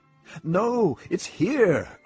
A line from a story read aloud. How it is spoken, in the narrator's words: cried the boy